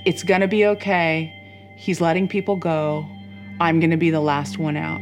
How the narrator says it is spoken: he said to us in the calmest voice

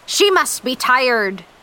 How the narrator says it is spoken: Captain Ahab shouted over the sounds of the ocean

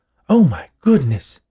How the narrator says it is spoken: Beverly exclaimed

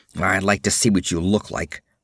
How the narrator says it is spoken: muttered Conan

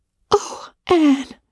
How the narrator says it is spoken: gasped Jane

